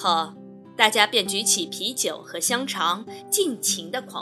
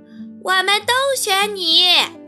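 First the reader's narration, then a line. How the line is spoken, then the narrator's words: Loud chorus. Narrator (Chinese): 所有的动物都会大声叫道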